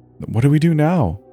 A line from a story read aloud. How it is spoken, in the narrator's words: Sarah asked, her voice small and scared